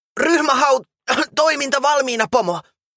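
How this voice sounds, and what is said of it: Hoarse character voice with coughing. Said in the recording (Finnish): “käheällä äänellä ja yskähdellen”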